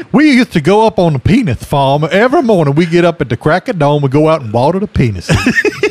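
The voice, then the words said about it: Put-on Georgia Southern accent. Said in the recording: “Jimmy Carter accent ... you got to go kind of Georgia”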